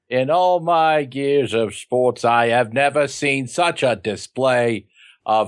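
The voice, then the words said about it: Terrible Howard Cosell impression. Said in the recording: “terrible Howard Cosell impersonation”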